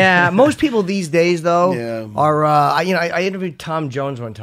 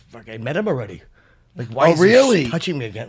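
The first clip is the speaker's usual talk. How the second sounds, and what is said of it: Poor put-on Welsh accent, sounds Irish. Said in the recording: “this is a terrible Welsh accent. That's more shit Irish.”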